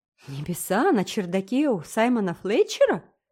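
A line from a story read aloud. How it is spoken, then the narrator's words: Astonished exclamation. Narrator (Russian): воскликнула Энн, слишком изумленная, чтобы рассмеяться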